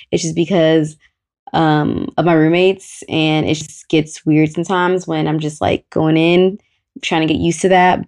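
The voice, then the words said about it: Speaking quietly, low voice. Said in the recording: “I'm talking so low on this episode”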